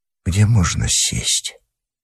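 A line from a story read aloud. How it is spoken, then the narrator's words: Very quiet, near whisper. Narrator (Russian): Я сказал совсем тихо, почти шепотом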